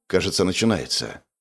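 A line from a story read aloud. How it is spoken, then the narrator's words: Quiet, calm speech. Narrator (Russian): произнес он негромко, чтобы не пугать статистов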